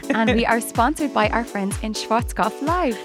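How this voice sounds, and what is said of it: Put-on German accent. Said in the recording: “That's a lovely German accent you've got there”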